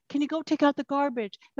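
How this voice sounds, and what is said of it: Soft whisper. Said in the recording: “in a very soft voice, in a whisper”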